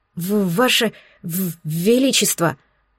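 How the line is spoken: Stammering advisor. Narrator (Russian): начал, заикаясь, советник

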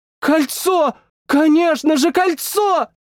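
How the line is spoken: Disbelieving shout. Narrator (Russian): Прокричала она, не веря самой себе

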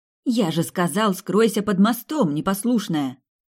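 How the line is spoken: Sharp scolding, catching breath. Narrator (Russian): Отдышавшись, прикрикнул на нее Сэм

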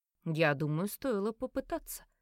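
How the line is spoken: Calm remark. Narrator (Russian): спокойно заметил

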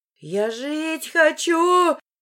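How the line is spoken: Woman screaming. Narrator (Russian): завопила рядом со мной женщина

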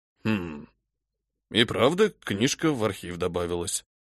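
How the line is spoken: Puzzled old man muttering. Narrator (Russian): пробормотал дед, с недоумением

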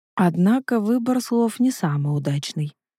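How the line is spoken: Young woman muttering. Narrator (Russian): пробормотала девушка

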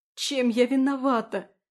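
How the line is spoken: Desperate sobbing. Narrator (Russian): рыдаю я в отчаянии

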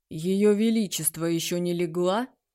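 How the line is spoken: Low-voiced question. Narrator (Russian): спросил низким голосом

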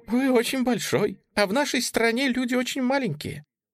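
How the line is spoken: Laughing explanation. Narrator (Russian): смеясь объяснила сорока

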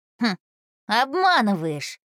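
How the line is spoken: Boy's skeptical snort. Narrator (Russian): мальчик хмыкнул

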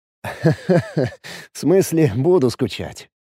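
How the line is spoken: Laughing. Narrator (Russian): рассмеялся я

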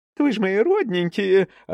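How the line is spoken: Joyful squeal. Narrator (Russian): радостно взвизгнула Лина Ап

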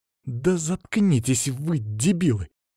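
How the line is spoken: Hissed. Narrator (Russian): зашипела Маша

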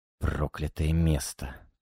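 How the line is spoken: Whispering. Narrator (Russian): прошептал Алексей

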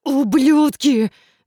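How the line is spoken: Roaring. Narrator (Russian): взревел Кейт

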